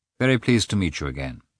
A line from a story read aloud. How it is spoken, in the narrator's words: said Karenin, coldly